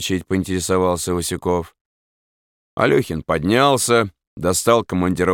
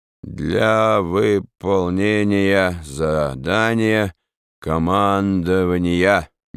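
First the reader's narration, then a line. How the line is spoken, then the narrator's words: Chairman reading slowly. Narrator (Russian): медленно прочел председатель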